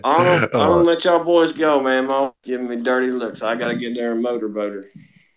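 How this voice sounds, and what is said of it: Southern American accent. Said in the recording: “I love a good southern accent.”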